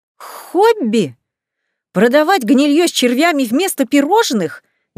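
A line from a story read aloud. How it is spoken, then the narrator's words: Indignant gasp. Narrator (Russian): возмущенно хапнула воздух ртом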